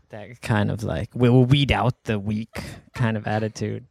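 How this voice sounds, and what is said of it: Imitates a film character's voice. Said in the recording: “Is that how Magneto speaks? ... the only accent he can do ... Michael Fassbender impersonation?”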